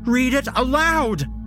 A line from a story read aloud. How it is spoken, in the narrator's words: She shouts